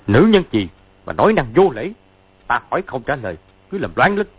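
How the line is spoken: Angry. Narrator (Vietnamese): Sứ Mạnh Tiệp giận dữ nói

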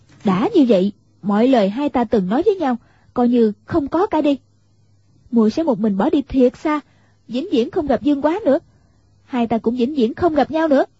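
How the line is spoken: Raised, snapping voice. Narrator (Vietnamese): liền cao giọng gắt

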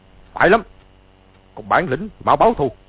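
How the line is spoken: Shouting. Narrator (Vietnamese): Từ Ân quát lên

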